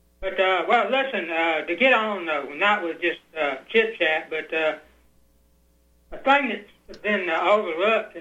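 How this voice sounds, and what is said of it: Southern American accent. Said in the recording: “my southern accent ... I have thought I've lost my southern accent. People sort of ridicule me and say, "No, you haven't." ... No, you haven't.”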